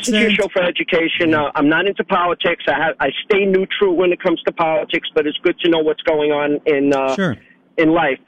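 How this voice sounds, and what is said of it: Brooklyn accent. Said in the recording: “Brooklyn ... accent.”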